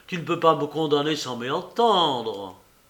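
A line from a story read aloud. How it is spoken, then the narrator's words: Pleading. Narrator (French): implorait-il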